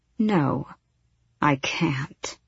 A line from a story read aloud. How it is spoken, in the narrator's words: she purred into his ear